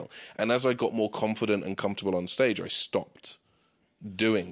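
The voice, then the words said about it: British accent. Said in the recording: “jokes about being British ... I'm already different because I have this accent”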